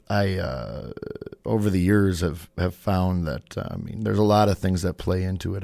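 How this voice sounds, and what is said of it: Slightly hoarse voice. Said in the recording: “I'm a little hoarse today from some allergies”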